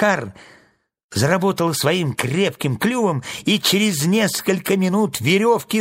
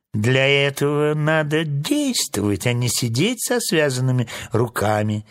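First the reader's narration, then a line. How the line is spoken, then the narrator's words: Snide crow. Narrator (Russian): ехидно сказала ворона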